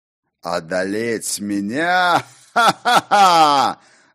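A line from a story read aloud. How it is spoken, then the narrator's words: Loud laughter. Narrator (Russian): расхохотался Ракот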